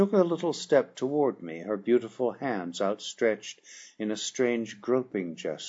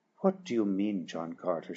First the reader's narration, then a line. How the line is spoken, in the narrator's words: whispered